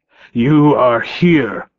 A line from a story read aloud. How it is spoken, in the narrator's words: Thomas snarled